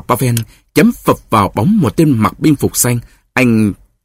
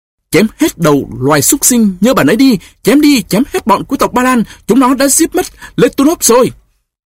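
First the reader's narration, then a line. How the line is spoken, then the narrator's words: Frenzied battle scream. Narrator (Vietnamese): Anh thét lên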